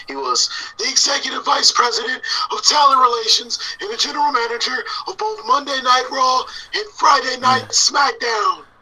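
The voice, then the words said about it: Imitates another person's voice. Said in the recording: “let me try to do my best impersonation.”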